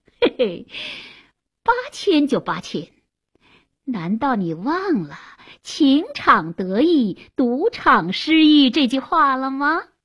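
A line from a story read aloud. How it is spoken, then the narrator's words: Laughing, mocking, strange voice. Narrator (Chinese): 阿芒笑了，怪声怪气地说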